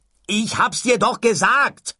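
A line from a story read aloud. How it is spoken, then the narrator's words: Shouting. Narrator (German): schrie Ford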